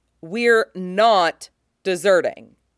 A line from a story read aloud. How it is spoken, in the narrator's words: re-emphasizes sternly